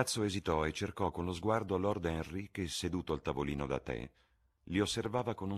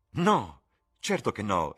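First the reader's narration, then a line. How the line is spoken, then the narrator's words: Exclamation. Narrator (Italian): esclamò Dorian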